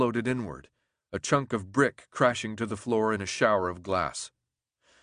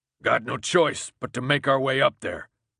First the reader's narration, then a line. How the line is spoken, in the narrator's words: the man growled